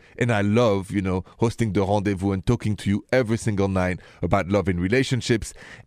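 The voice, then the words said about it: Thick French accent. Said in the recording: “a French dude like me ... with such a thick accent”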